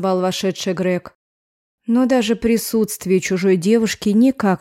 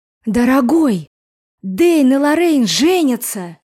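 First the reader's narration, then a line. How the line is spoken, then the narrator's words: Exclaiming. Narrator (Russian): воскликнула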